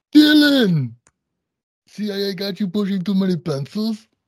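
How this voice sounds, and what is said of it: Poor imitation of another person's voice. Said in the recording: “bad accents ... that was a good Arnold ... That was a terrible Arnold ... like a combination of like a Hawaiian reggae guy ... great impression of Arnold if you were deaf”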